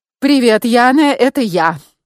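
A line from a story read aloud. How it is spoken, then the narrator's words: Cheerful, brisk. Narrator (Russian): бодро начала я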